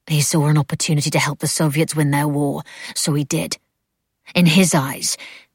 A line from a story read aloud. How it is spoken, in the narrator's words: she spat the words